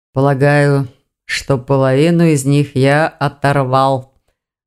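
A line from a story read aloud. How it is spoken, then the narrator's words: Low muffled voice. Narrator (Russian): глухо проговорил Саргон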